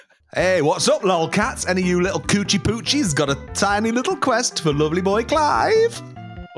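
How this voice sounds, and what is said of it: Put-on Midlands accent. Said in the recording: “Just do an accent ... Just come from the Midlands ... Like Sean Bean”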